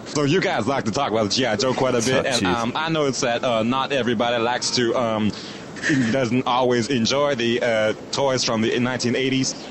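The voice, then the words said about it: Imitates another person's voice. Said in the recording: “Do all their Sarah voice ... Do all Sarah voice now.”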